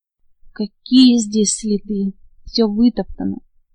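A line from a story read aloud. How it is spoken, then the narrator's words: Plain. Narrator (Russian): ответил его спутник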